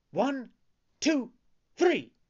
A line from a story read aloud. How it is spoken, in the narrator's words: cried the puppet